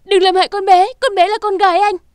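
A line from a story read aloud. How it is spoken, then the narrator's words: Desperate loud scream. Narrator (Vietnamese): trong lúc khẩn cấp Nam Cung Vũ Nhi gào to lên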